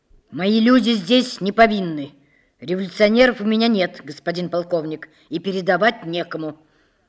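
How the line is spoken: Sharp desperate declaration. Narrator (Russian): Отчаяние сделало начальника тюрьмы мужественным, и он резко заявил полковнику

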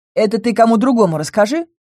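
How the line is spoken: Snide, resentful. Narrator (Russian): ехидно ответил лис, не простивший морскому правителю его безобразную выходку

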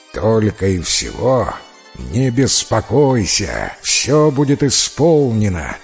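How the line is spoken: Terrifying roar. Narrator (Russian): ответил львиный король и зарычал страшным голосом

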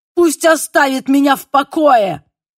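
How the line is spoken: Desperate shout. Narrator (Russian): крикнул он и в полном отчаянии

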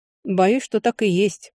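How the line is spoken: Gloomy. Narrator (Russian): мрачно королевский некромант

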